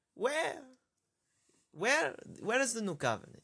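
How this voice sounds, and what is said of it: Poorly done put-on Jewish accent. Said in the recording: “oh that's a terrible Jewish accent”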